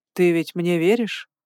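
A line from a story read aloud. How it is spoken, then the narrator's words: Insinuating question. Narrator (Russian): вкрадчиво поинтересовался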